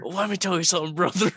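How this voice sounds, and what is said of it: Hulk Hogan style wrestler impression. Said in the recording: “I do love a Hulk Hogan impersonation though.”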